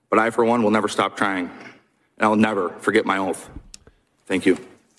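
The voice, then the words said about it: Choked-up, emotional voice. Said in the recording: “You could hear how he's getting choked up.”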